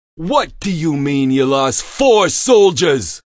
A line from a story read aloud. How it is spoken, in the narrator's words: Maldonado screamed into the phone